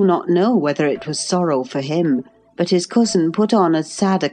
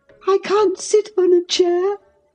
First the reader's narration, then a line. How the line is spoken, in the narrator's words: sobbed the boy